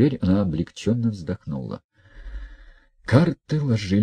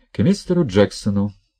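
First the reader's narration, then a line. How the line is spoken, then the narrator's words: Curt, clipped. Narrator (Russian): бросила Хельга отрывисто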